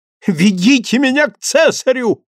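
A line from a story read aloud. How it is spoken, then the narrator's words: Frenzied shouting. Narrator (Russian): исступленно кричал Алексей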